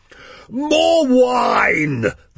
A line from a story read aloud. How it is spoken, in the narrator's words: the fat, fair-headed prick petulantly booms